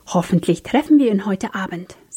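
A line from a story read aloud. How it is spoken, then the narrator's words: Said with deep sigh. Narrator (German): sagte Philip mit einem tiefen Seufzer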